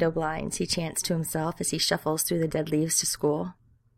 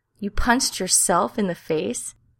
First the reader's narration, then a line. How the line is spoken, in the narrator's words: Sam throws back his head and laughs